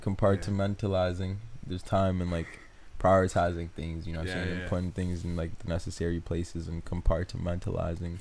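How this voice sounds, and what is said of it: African accent. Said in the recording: “That's the African in me ... it's an accent, kind of. ... Yeah, it's an accent.”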